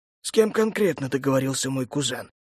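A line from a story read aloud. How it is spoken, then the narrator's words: Plain. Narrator (Russian): спросил император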